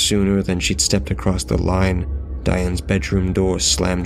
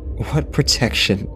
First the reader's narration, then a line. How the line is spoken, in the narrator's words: Casey laughed